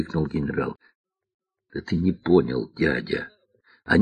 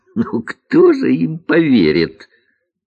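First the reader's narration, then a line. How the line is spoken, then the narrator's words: Loud laughing. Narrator (Russian): захохотал генерал Хлом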